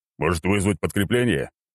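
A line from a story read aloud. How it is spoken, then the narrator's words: Growling. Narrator (Russian): рыкнул Черномор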